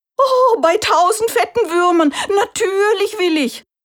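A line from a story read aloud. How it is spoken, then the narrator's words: Rooster's call. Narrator (German): rief der Hahn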